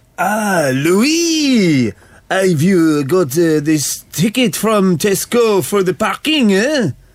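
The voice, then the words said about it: Put-on French accent. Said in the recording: “the first accent on the accent roller coaster I'm shouting at you is French”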